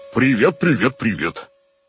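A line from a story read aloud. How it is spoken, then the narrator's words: Loud booming reply. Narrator (Russian): громко прогудело в ответ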